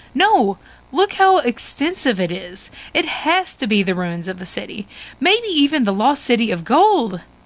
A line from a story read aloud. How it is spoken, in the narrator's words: exclaim